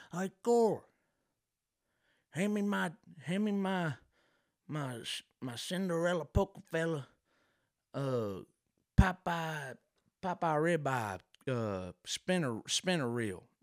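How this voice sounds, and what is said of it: Exaggerated deep redneck accent. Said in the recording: “a real strong redneck with that real deep accent. It sounds like he's, you know, choking on a butterscotch ... Sound like he's choking on a little peppermint”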